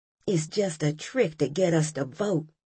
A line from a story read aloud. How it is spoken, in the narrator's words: I heard one lady whisper